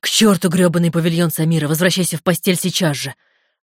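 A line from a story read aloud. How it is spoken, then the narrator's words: Barking angrily. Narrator (Russian): рявкнул он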